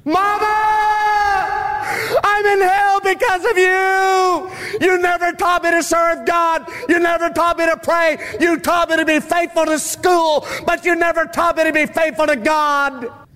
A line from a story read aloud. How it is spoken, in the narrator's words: people screaming out